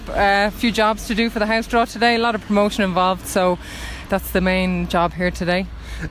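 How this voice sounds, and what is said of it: Dublin Irish accent. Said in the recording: “I might have a Dublin accent”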